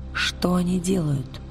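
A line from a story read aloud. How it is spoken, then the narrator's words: Whisper. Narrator (Russian): прошептала она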